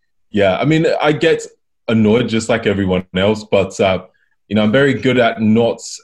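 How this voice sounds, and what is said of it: Calm voice, English accent. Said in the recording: “You've got a very calm way about you. ... maybe it's the English accent”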